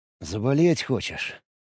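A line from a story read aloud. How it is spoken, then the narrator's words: Contented purr. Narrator (Russian): Миори довольно мурлыкнула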